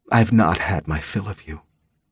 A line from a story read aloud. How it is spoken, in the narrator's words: Thera sang quietly